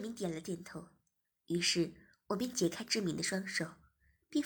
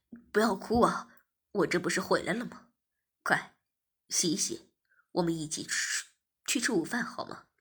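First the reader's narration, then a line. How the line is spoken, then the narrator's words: Laughing. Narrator (Chinese): 我笑着说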